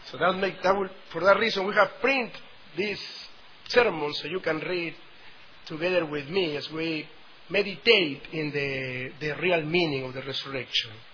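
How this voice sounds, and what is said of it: South American Spanish accent. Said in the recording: “I have the real southern accent from South America”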